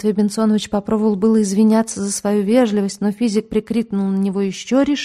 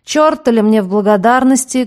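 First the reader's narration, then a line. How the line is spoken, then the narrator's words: Menacing shout. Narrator (Russian): грозно крикнул Лямпе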